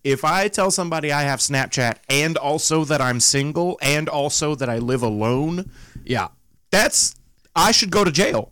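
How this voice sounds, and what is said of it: Southern US accent. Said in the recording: “from the South with my voice and accent”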